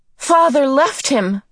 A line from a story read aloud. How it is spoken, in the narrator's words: Meg cried